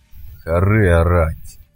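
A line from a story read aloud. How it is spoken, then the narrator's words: Gloomy. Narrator (Russian): мрачно произнес Крюк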